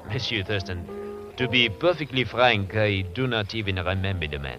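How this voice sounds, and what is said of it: Phony French accent. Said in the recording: “That French accent of yours is as phony as that Hawaiian dancer.”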